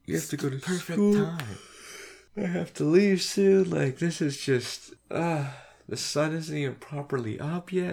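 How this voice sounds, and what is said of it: Groggy, just-woke-up voice. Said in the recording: “I sound like I just woke, like I literally just woke up ... My voice sounds weird, so for the rest of this, I'm going to sound weird ... I don't know why you can't control your throat”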